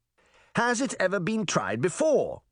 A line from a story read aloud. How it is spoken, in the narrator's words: Charming said impatiently